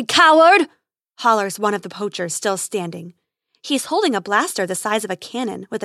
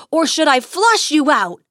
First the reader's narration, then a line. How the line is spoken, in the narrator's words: He hollers again